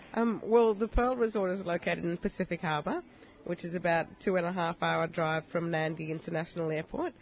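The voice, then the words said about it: Slight Australian-Fijian accent. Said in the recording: “she has a little bit Australian-Fijian accent mixed there. It sounds very very nice.”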